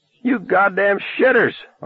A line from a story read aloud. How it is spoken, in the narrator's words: Arnie screamed